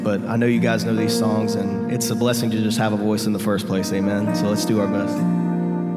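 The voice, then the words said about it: Hoarse, weak voice. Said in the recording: “lost my voice basically last night”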